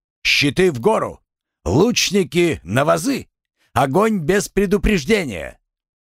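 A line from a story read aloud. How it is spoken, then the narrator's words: Loud shout. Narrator (Russian): громко крикнул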